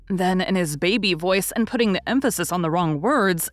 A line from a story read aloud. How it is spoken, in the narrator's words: he said his voice all in one breath